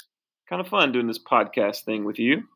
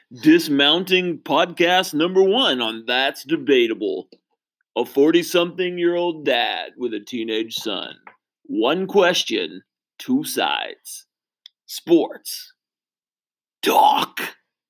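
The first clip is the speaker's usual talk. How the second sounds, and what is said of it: Radio announcer voice. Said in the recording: “Radio Voice.”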